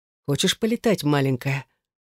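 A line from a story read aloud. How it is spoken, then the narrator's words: Intimate whisper in ear. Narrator (Russian): ласкает шепотом мое ушко, прижавшись к мочке губами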